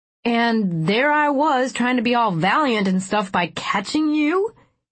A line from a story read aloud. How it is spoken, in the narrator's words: He chuckled